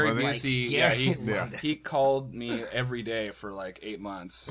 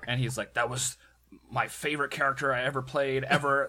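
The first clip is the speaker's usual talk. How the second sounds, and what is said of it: Gary Busey impression. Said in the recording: “my great Gary Busey impression”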